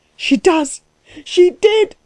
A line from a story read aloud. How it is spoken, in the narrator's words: screamed Klutz, beside himself